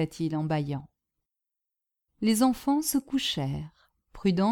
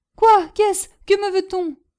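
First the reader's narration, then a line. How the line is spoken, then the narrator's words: Half-asleep exclamation. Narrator (French): s'écria Prudence à moitié endormie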